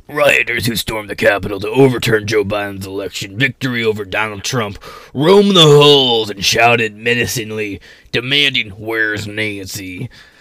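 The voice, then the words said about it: Spooky, scary reading voice. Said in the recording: “read this in like a really scary fucking way... put on a funny voice... I'm going to be all spooky”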